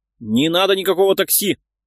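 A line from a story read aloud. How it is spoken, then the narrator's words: Barking. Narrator (Russian): рявкнул Леонтьев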